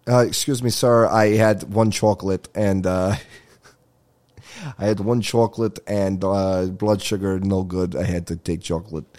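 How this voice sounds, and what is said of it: Put-on Russian accent. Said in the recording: “sounds Russian... I'm just doing an accent”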